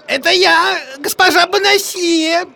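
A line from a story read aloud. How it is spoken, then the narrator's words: Thin high voice. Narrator (Russian): Таким же тонким голосом ответил гасконец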